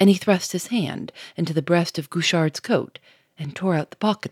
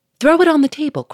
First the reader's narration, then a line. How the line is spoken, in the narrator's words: cried Lupin